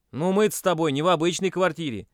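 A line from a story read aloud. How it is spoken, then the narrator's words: Irritated exclamation. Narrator (Russian): воскликнул Стас, раздраженно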